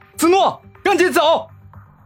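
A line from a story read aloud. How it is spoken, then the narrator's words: Shout. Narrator (Chinese): 回头喊道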